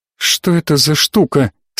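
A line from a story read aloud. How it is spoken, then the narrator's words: Absorbed mutter to no one. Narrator (Russian): пробормотала она, не обращаясь ни к кому в отдельности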